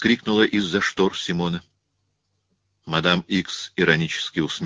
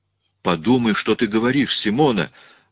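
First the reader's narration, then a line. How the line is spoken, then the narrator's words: Exclaimed. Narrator (Russian): воскликнул Рауль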